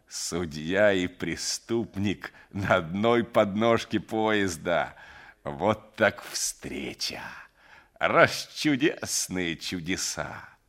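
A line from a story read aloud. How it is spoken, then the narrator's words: Mocking, through clenched teeth. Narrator (Russian): Пуханов насмешливо сквозь зубы цедил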